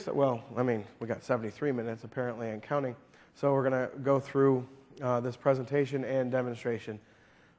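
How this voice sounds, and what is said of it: Slightly hoarse voice. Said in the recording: “My voice, I'm a little hoarse today.”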